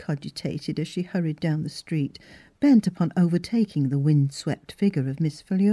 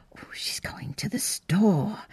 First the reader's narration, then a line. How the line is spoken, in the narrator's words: said Miss Pratt under her breath